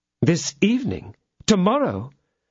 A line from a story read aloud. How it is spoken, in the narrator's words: exclaimed, aroused from her reverie by these words